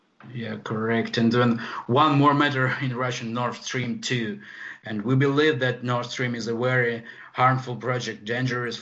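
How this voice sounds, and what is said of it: Thick Polish accent. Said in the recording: “It's their Polish accent... It's a little thick, the accent is.”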